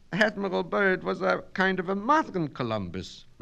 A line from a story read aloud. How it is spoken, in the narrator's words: Miss Mitnick said nervously